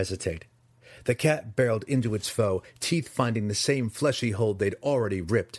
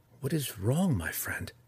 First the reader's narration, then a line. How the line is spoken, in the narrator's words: Drizzt asked softly